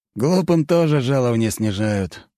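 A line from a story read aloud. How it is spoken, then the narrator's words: Sighing. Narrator (Russian): вздохнул предводитель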